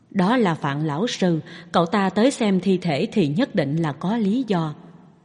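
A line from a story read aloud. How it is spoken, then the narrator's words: Low, hushed voice. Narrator (Vietnamese): một pháp y khác nhỏ giọng nói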